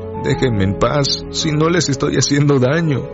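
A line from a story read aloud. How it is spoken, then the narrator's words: Tearful pleading boar. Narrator (Spanish): El jabalí, con lágrimas en los ojos, suplicó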